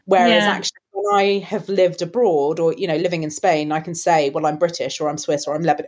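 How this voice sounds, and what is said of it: English British accent. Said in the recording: “my English accent ... you've got a British accent”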